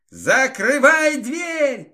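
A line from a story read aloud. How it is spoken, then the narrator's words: Shouting. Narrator (Russian): крикнул я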